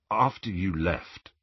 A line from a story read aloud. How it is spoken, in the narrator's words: he said in a low voice